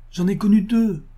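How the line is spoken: Angry exclamation. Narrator (French): s'écria avec emportement Josette

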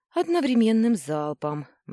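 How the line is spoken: Grim reply. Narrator (Russian): мрачно ответила я

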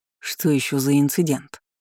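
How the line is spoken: Growling. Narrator (Russian): прорычал Демьен

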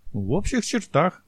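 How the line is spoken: Cheerful. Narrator (Russian): бодро кивнул

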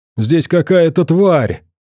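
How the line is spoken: Young man shouting. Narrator (Russian): крикнул парень

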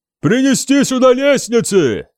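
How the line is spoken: Roaring bellow. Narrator (Russian): взревел кто-то

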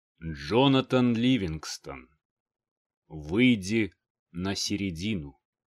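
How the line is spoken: Solemn elder. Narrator (Russian): Слова старейшего звучали торжественно

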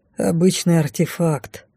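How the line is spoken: Sigh. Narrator (Russian): вздохнул парень

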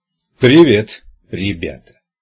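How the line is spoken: Echoing, booming sarcastic voice. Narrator (Russian): Голос человека в черном разнесся эхом в этой гулкой каменной глотке, так что сарказм его прогремел могучим обертоном

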